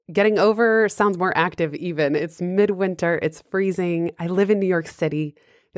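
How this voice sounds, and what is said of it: Voice slightly hoarse from a cold. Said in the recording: “I'm just getting over a cold, so my voice sounds a little different.”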